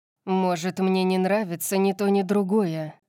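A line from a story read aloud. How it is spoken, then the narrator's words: Grim growl. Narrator (Russian): мрачно прорычал он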